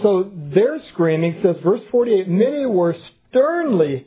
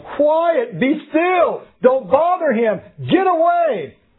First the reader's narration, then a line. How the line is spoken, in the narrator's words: yelling